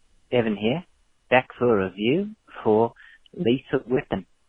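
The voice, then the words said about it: Put-on Australian accent. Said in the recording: “I'm speaking to you in Mel Gibson's negative tongue, the Aussie Australian ... Fuck the accent. Can't do it right now.”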